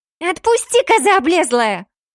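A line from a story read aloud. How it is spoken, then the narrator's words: Piggish squeal. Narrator (Russian): Взвизгнула по-поросячьи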